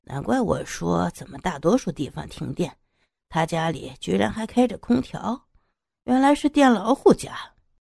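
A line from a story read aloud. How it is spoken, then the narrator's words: Muttered inner thought. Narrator (Chinese): 男人心里嘀咕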